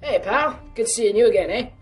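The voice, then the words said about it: Kind, almost Canadian accent. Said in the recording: “spoke with a kind, almost Canadian accent.”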